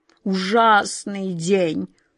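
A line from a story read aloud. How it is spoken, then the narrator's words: King groaning. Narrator (Russian): простонал король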